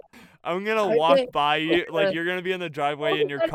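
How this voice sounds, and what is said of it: Usual voice. Nothing is said of it.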